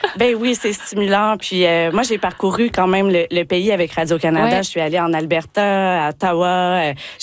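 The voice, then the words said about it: Québécois French accent. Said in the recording (French): “vous pouvez l'entendre par mon accent, je suis québécoise”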